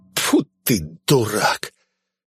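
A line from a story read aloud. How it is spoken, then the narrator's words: Hissing. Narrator (Russian): Он зашипел, увидев Швара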